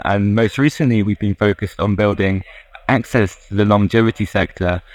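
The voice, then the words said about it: British accent. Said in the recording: “as you may tell from my accent, I'm from the UK”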